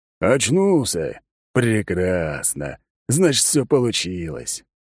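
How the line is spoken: Pleased. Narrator (Russian): довольным голосом произнес змей

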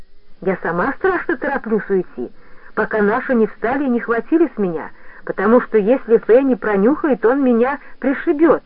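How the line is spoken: Persuasive girl's voice. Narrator (Russian): убедительным тоном сказала девочка

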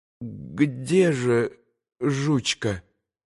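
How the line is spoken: Strained, breaking voice. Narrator (Russian): надорванным голосом спросил Илюша

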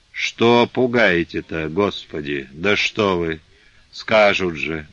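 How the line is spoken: Muttering. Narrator (Russian): бормотала Головешиха

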